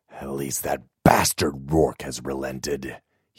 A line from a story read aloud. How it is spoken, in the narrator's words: he muttered